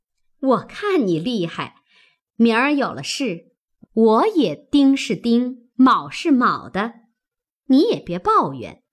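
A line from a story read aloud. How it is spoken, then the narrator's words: Laughing. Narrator (Chinese): 凤姐儿笑道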